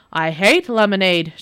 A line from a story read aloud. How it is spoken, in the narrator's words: shouted the devil